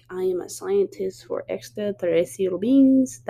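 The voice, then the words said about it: Bad put-on Russian accent. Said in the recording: “That was probably the worst Russian accent you ever hear me do.”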